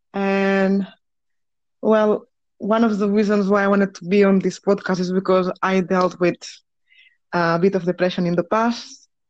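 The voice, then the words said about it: Spanish accent. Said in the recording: “this horrible accent that I have ... I was born in Spain, in Barcelona”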